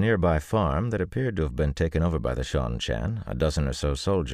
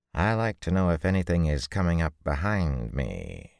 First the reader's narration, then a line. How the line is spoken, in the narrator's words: told him dryly